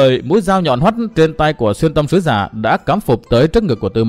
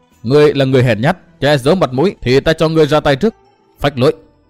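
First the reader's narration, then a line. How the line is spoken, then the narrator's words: Cold. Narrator (Vietnamese): Từ Mã Minh lạnh lùng nói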